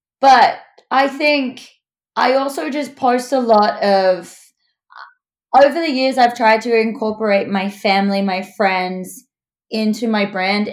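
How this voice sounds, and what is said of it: Australian accent. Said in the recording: “they like my accent ... We do like the accent. Americans love the Australian.”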